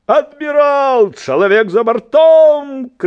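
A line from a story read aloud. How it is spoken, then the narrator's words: Father shouting. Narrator (Belarusian): крыкнуў бацька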